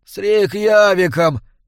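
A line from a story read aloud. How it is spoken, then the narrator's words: Moaning. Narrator (Russian): простонал незнакомец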